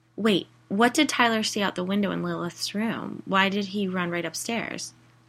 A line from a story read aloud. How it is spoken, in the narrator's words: Knox sighed